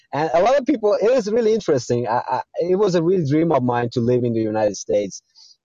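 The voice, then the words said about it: American accent. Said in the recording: “you have a great uh, American accent.”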